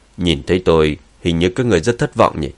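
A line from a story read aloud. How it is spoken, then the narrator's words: Cold. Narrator (Vietnamese): Dương Chấn nhìn Thượng Quan Hoàng lạnh lùng nói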